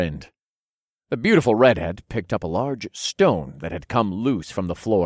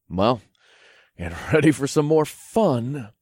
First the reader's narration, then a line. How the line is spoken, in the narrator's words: chuckled